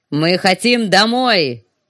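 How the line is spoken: Roaring. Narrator (Russian): проревел он

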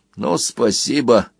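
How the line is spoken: Tired and gloomy. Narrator (Russian): произнес Банкан устало и мрачно

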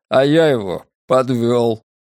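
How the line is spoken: Dry, flat. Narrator (Russian): мой отец сухо произнес

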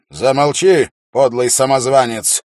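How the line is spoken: Angry shout. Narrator (Russian): зло крикнул Феррис

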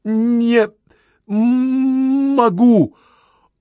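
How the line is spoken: Sobbing. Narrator (Russian): Он всхлипнул

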